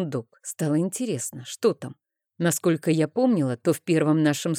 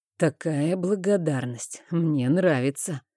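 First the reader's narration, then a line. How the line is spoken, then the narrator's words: Hoarse voice. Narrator (Russian): охрипшим голосом произнес он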